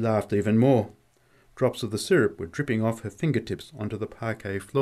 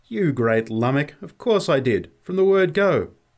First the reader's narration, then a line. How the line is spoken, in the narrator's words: There was something of the old tone in her voice when she laughingly replied